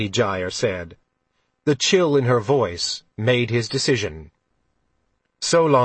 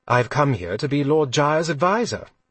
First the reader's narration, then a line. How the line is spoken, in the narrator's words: he said, smiling warmly